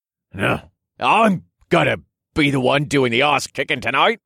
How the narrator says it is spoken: he grunted

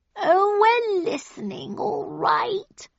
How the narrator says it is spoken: purred the cat

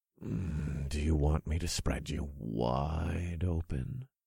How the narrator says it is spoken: I muttered

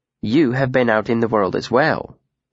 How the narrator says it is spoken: said calmly

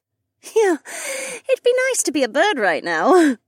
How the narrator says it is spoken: Becca chuckled

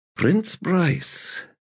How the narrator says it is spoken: murmured Abrustel

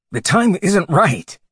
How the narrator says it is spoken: Linden said desperately

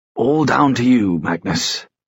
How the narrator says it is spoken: Henry said

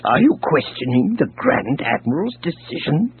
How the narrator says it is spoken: Dizra snarled

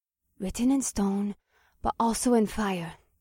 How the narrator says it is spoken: Akira whispered under her breath

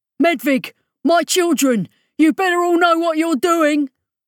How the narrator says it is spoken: Rollo yelled

